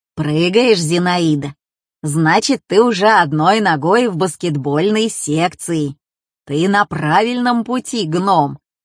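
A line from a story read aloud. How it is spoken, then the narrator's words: Joyful booming. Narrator (Russian): Радостно прогудел он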